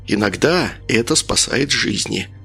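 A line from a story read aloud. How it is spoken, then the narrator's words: Whispered. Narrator (Russian): прошептал Леха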